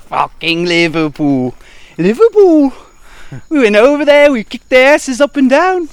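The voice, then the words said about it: Cringy put-on Liverpool accent. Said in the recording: “It's a cringy accent. ... like Donald Trump pretending to be from the UK ... my Liverpool accent”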